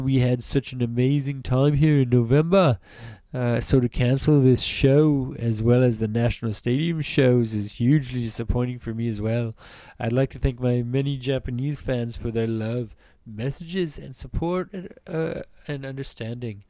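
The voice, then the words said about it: Very bad put-on English accent. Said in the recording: “officially has the worst, worst English accent I have ever heard ... that is the worst English accent on earth.”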